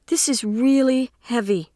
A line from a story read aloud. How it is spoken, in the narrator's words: says in a shaky voice